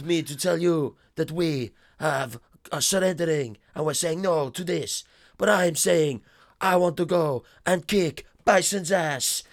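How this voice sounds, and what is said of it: Put-on Dutch accent, character voice. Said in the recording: “it's a good little Dutch accent.”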